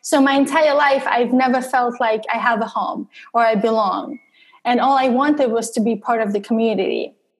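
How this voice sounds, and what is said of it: Russian accent in English. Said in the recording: “I have an accent in English and I'm originally from Russia”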